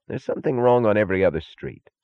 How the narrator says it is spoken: said Taggart irritably

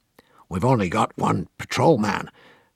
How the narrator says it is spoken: Don Rugoff, the American distributor, kept muttering morosely

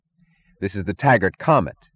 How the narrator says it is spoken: said Eddie Willers, choking

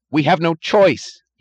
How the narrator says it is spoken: he cried

